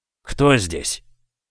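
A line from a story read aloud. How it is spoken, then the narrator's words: Hoarse question. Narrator (Russian): хриплым голосом спросил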